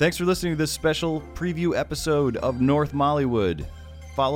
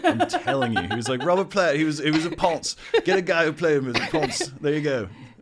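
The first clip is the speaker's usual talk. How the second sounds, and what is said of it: British accent, imitates another person's voice. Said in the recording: “That's my Jagger. That's British my Jagger impression.”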